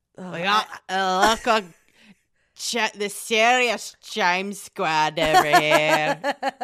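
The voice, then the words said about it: Weak Scottish accent, Boston-tinged. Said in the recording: “That's not a Scottish accent, no ... Scotland by way of Boston.”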